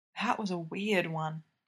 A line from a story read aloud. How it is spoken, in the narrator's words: PK mumbles